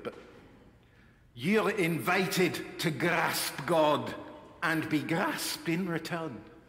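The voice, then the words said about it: Imitating John Bell's accent. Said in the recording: “I'm going to try the accent, it's not very good”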